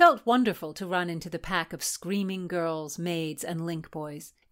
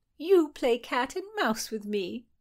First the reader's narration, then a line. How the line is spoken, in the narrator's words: Mary chuckled